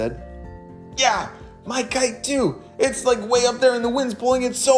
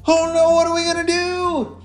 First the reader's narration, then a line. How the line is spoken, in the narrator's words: Alistair shouted